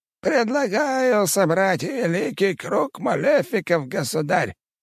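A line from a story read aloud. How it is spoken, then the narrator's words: Old man's creaky voice. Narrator (Russian): Один из старейших лордов, герцог Йоркский, впервые за все собрание заговорил старческим скрипучим голосом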